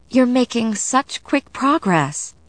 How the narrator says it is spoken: I said brightly, as though everything in the world were rosy

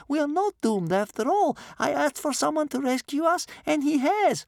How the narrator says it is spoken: said Bear Cub excitedly

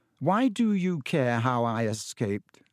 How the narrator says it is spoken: said Harry slowly

